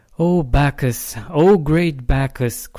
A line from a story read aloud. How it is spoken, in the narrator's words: cried Midas